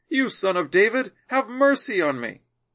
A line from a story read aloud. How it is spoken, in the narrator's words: he cried out much more